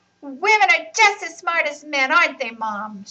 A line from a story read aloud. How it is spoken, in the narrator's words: shouted